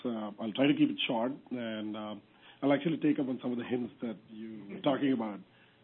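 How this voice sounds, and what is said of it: Slightly hoarse voice. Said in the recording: “sick with the strep throat ... my voice being a bit hoarse”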